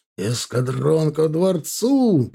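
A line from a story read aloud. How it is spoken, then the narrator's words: Shouted. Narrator (Russian): прокричал черный от копоти огнев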